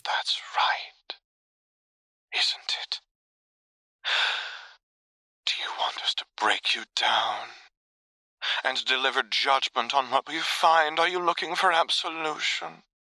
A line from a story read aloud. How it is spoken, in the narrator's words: Jane whispers